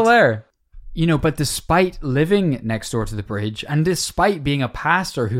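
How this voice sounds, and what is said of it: Usual voice. Nothing is said of it.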